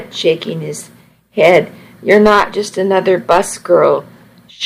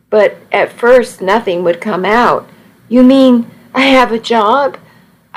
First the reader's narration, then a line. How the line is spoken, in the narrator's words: I said it so loudly